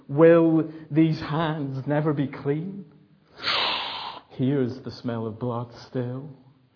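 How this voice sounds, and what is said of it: Dramatic Lady Macbeth character voice. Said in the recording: “bad impression of Lady Macbeth”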